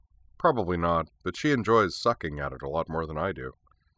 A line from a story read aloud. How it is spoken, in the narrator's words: Corwin replied